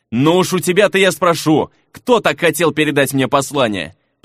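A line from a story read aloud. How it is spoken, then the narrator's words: Muttered. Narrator (Russian): пробормотал Фернан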